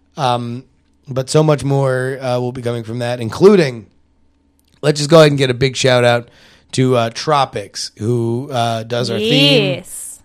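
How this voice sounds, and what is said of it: Rough, worn-out voice. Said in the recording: “my voice is a pile of poop”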